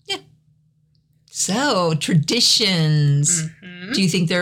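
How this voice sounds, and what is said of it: Usual voice. Nothing is said of it.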